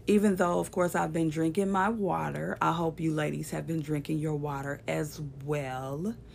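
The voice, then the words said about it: Raspy voice. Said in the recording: “My voice is still kind of raspy.”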